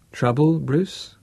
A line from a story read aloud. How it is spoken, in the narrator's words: asked Andre